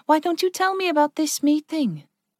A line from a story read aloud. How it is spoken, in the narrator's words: Ragnar sighed